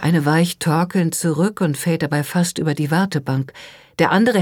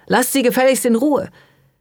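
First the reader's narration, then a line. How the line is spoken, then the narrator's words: Shouting. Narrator (German): schreit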